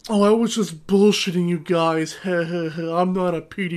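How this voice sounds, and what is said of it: Imitates another person's voice. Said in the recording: “good Jared impression”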